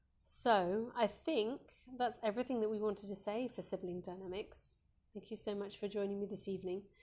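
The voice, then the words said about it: Croaky, hoarse voice. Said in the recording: “I'm at the stage of losing my voice. I'm sorry, I've gone really, really croaky.”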